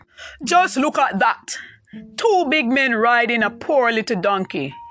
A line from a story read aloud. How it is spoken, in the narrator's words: they called out